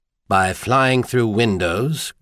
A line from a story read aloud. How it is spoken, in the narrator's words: Garvai asked sardonically